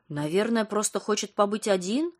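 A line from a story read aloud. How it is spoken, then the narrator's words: Confused guess. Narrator (Russian): растерянно предположила Лена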